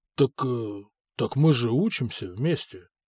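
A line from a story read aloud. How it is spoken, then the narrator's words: Mumbling. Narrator (Russian): промямлил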